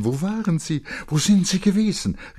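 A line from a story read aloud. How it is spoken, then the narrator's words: Hasty call. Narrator (German): rief hastig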